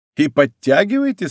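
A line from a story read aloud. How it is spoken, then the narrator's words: Laughing. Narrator (Russian): спросил, смеясь, Гито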